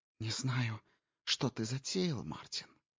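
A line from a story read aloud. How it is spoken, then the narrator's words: Whisper. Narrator (Russian): прошептала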